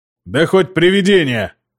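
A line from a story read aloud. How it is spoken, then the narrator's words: Roar. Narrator (Russian): взревел Дека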